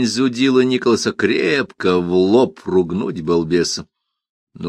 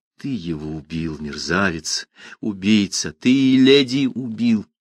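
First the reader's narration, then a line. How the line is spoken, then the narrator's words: Quiet, almost hissing. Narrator (Russian): Фернан тихим голосом, чуть не шипя, сказал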